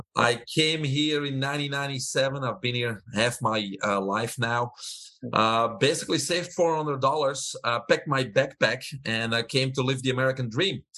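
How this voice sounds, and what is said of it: Belgian accent. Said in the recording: “I have an accent. I'm originally from Belgium.”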